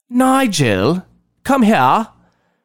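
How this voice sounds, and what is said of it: Snobby put-on British accent. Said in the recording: “only speak to him in a British accent, the snobbiest I can muster.”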